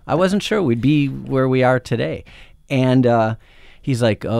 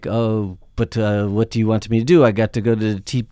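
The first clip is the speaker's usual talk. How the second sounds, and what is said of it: Put-on French accent, sounding Yiddish. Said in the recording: “my French accent always sounds like an old Yiddish man”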